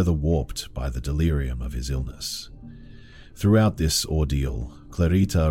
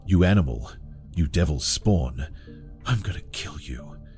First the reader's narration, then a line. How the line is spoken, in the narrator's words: The words, spat out in a voice twisted by madness